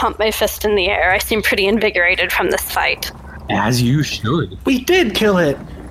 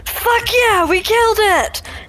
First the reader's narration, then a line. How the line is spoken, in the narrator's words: I shout